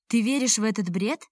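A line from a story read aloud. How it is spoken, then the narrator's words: Mocking question. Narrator (Russian): насмешливо спросил Алика начальник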